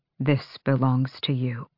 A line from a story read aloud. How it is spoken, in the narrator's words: she said, her voice low